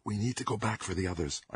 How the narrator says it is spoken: I whispered

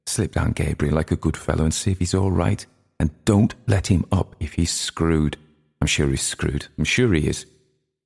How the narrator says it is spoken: Aunt Kate whispered into his ear

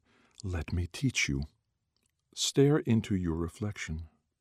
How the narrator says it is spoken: The pool whispered

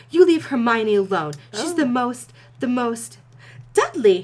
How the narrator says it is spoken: his mother exclaimed reproachfully

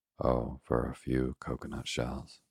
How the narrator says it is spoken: sighed Ernest

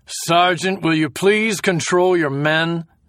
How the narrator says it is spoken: The major looked annoyed and shouted

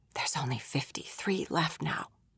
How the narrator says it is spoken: he whispered

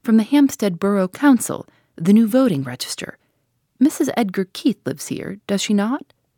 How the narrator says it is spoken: he said briskly and cheerfully

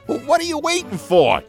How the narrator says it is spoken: Timothy Q Mouse cried

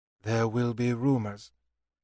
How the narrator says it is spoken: Jehanara said evenly

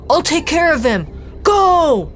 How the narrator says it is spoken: Dante shouted

